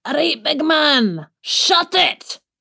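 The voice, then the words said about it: Put-on Scottish accent impression. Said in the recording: “I could do an impression of my husband. ... In a Scottish accent.”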